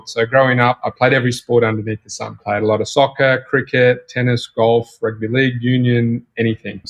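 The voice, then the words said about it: Australian accent. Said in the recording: “you probably tell from my accent, I'm from Australia”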